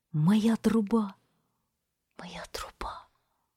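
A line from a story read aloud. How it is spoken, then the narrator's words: Little angel whispering. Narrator (Russian): прошептал ангелочек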